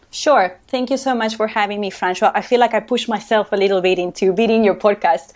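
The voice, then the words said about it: Spanish accent, Uruguayan speaker. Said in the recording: “you can tell I have an accent. So I have a Spanish accent. I come from Uruguay”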